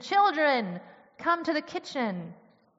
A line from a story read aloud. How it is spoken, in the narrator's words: she called out to them from the kitchen